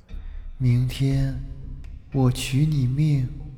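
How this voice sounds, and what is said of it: Long, drawn-out eerie voice. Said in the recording (Chinese): “用悠长的声音说”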